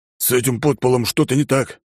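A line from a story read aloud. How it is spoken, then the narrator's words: Through gritted teeth. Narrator (Russian): процедил Люкас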